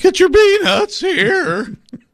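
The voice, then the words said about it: Cracking teenage puberty voice, James Gladstone. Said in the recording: “do the James Gladstone voice ... any teenager has the, like, going through puberty, hey, everybody, voice”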